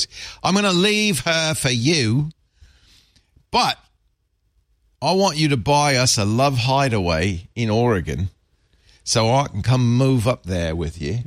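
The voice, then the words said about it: Australian accent with Cockney mix. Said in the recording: “my bad Australian accent ... thought he was Cockney ... That had a mix. That's a pretty good accent.”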